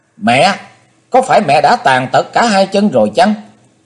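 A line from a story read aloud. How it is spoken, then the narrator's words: Sudden shout. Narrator (Vietnamese): Chí Tôn bỗng hét lên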